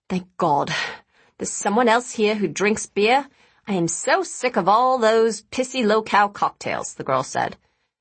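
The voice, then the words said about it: Australian accent. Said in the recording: “She was Chinese, but spoke with an Australian accent.”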